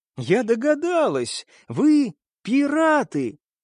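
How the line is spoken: Joyful exclamation, young woman. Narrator (Russian): девица радостно воскликнула

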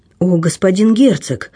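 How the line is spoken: Sad young man's exclamation. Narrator (Russian): воскликнул молодой человек с выражением искренней грусти

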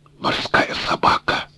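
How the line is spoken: Muttered. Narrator (Russian): пробормотал Грейнджер

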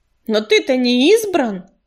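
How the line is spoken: Snap. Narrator (Russian): огрызнулся грачик

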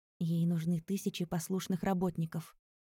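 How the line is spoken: Whisper. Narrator (Russian): прошептал мне Ера

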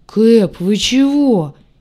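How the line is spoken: Frightened low boom. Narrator (Russian): испуганно прогудел белый

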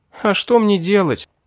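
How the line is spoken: Sobbing question. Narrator (Russian): всхлипывая, спросила она

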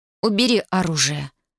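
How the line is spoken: Icy voice. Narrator (Russian): ледяным голосом произнесла она

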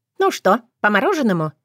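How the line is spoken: Exaggeratedly cheerful question. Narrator (Russian): спрашивает преувеличенно весело Ира

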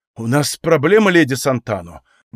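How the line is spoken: Worried, agitated tone. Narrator (Russian): говорил он взволнованным тоном

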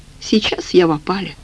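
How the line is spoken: Sighing. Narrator (Russian): вздохнул Лекарский

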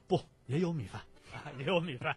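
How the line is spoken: Smiling. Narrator (Chinese): 老王微笑着说

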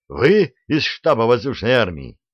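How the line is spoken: Joyful yell. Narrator (Russian): радостно заорал он

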